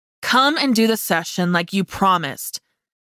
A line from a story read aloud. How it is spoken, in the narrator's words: demanded firmly